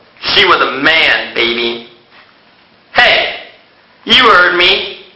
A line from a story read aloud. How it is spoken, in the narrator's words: Kamal grunted